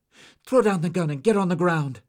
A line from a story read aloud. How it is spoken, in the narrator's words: Sabina cried